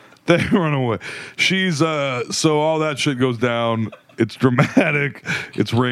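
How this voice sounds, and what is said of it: Usual voice. Nothing is said of it.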